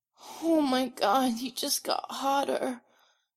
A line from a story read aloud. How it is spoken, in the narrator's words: Styles whimpers